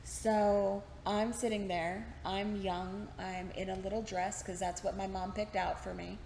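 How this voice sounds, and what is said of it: Mild Texas country accent. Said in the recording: “my accent has come out a little bit ... this is much milder than my accent used to be. As a country girl, heavy accents”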